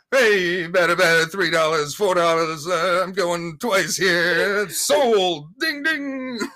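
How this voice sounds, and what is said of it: Fast auctioneer-style patter. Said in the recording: “an auctioneering impersonation ... the fast talking”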